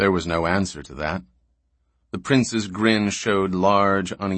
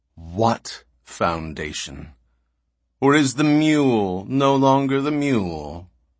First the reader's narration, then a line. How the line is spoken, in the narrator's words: It was the other, Calmason, who answered slowly